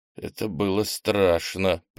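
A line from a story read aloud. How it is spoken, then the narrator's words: Shaken mutter. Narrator (Russian): пробормотал он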